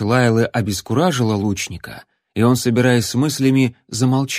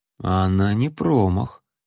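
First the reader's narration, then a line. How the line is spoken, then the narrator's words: Quiet. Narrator (Russian): тихо произнес Джон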